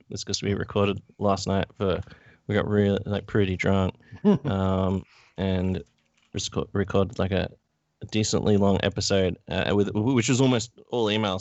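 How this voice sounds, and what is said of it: Rough, strained voice. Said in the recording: “that's why my voice is a bit fucked”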